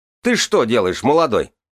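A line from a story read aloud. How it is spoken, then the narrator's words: Sudden bellow. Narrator (Russian): как гаркнет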